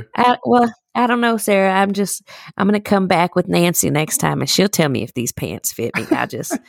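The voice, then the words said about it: Country accent, old man voice. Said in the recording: “everybody has a country accent if they work or shop there”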